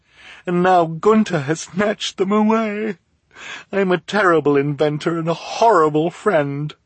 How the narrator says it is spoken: she said mournfully

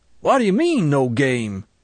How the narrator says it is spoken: shouted Mr

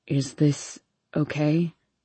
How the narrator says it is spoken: He stutters

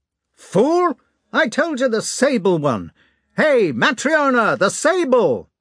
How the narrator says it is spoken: he shouted so that his voice rang far through the rooms

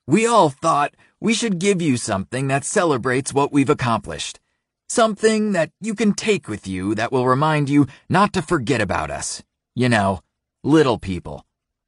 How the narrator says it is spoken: he says, even more loudly and brashly than normal

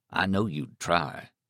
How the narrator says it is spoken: Stark said gravely

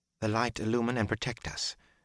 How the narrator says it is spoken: Elaine muttered in a faint voice

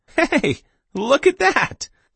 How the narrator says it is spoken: he cried

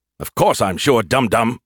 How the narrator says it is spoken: he snapped

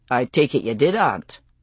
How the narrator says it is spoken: Jamie asked dryly

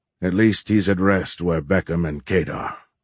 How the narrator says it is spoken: Sergeant Yazdohai said in his stoic tone

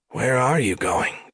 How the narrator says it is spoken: Kali said weakly

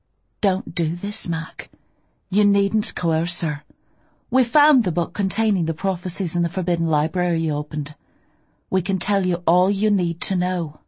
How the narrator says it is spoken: her voice was calm and determined when she said

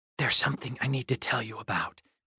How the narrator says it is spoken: I whispered

